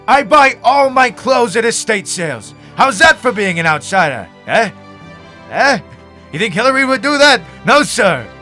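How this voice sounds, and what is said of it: Loud yelling imitation of another person. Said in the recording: “I'm yelling! ... he blew out the sound guy's eardrums ... he is a very passionate candidate”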